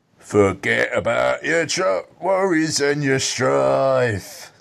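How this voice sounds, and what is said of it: Imitates another person's singing voice. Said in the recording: “That's actually a scarily good impression, that.”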